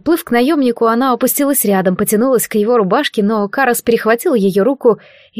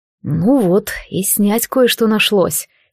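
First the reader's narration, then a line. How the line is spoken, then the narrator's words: Quiet. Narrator (Russian): тихо сказал он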